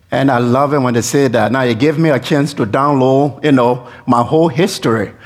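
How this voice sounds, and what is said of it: Foreign accent. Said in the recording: “people say, oh, you have an accent, where are you from? ... We have accent that is different.”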